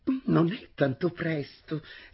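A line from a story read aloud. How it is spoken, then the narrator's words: Sweet-voiced teacher replying. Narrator (Italian): rispose con voce dolce la maestra Zibelli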